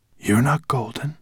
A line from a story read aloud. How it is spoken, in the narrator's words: the she-dragon said at last in a hoarse voice